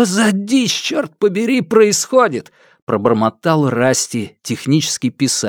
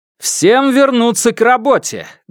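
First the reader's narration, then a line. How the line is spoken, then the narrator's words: Loud declaration. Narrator (Russian): громко заявил Крейг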